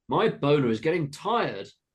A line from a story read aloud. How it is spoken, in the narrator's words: exclaimed the man